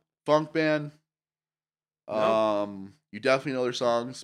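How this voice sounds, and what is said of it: Usual voice. Nothing is said of it.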